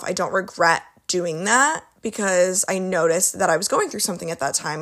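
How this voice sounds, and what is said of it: Hoarse, strained voice. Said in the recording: “Why am I losing my voice? ... my voice is not used to talking this much”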